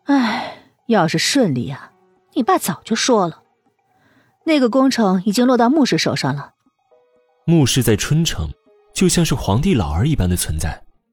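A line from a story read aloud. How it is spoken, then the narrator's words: Sigh. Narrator (Chinese): 叶梅敛了笑，叹道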